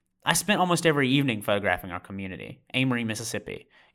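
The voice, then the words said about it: Mississippi accent. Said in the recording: “You probably caught my accent early on.”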